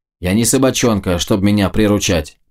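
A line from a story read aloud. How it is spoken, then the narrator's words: Grumbling. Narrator (Russian): проворчал Больд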